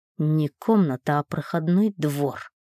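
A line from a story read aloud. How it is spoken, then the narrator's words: Hiss. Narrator (Russian): прошипел Ник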